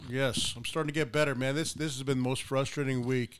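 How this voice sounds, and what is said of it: Sick, hoarse voice. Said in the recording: “you can probably hear it in my voice ... That infection was horrible.”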